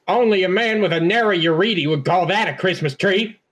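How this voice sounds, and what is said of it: Cotton Hill cartoon character voice. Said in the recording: “my Cotton Hill impression.”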